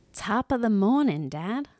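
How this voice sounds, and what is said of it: Put-on vaguely British accent. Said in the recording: “a little British accent, huh? ... that wasn't really British.”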